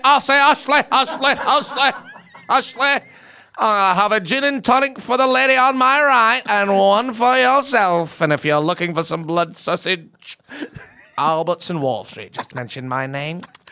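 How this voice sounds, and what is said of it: Northern English character voice impression. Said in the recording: “who did you watch or who you inspired? ... Fred Elliott ... playing somewhere from up north in England ... get the accent nailed”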